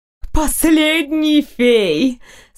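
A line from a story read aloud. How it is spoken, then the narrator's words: Ringing voice. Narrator (Russian): сказала она звонким голосом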